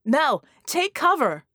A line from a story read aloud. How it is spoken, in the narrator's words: Red screamed